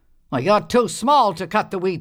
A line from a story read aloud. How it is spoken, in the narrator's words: the old man grumbled